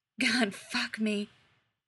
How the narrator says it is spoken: he whispers

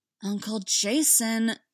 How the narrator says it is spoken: she began, with a sigh that definitely came from Aunt Corey

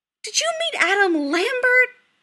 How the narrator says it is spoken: his mother squeals

